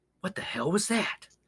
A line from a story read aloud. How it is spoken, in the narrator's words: whispered, his voice shaking